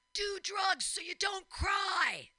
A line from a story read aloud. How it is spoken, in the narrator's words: a guy just starts screaming